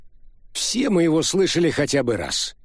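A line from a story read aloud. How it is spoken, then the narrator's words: Loud. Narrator (Russian): громко сказал Андерсон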